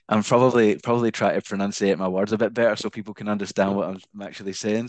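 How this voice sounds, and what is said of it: Mild Scottish accent. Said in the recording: “I'm guessing by your accent you are not actually from Australia ... I don't think you have a very strong Glaswegian accent at all ... Scottish, but it's not Glaswegian”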